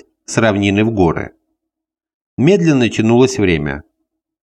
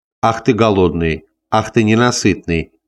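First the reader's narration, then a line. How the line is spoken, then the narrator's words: Laughing. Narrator (Russian): смеялась Валерия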